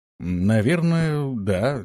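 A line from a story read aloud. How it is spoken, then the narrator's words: Uncertain speech. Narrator (Russian): неуверенно проговорил Антон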